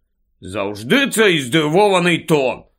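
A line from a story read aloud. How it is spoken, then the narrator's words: Slightly irritated grumble. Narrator (Ukrainian): трохи роздратовано буркнув Рон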